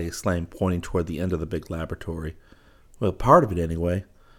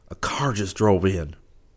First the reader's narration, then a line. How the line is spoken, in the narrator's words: he gasped